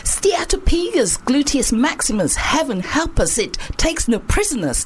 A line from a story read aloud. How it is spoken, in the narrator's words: they hollered